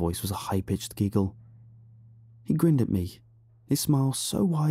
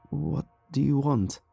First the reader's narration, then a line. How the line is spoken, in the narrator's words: My voice was hoarse and shaky from years without use, but I tried to sound as firm as I could